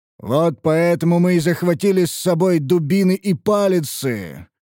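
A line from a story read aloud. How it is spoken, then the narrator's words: Growling. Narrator (Russian): прорычал Гробак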